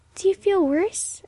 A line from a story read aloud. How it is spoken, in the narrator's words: asked Emily anxiously